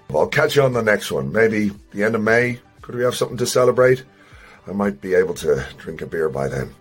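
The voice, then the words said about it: Voice sounds unwell, not at full strength. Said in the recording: “You can hear from my voice, I'm not at 100%.”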